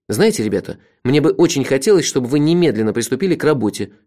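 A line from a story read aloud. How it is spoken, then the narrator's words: Angry. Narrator (Russian): сердито сказал я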